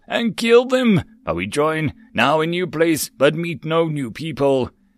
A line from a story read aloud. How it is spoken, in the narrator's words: Yak growled